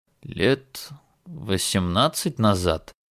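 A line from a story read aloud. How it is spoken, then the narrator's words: Thoughtful reply. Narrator (Russian): задумчиво отозвался Джеймс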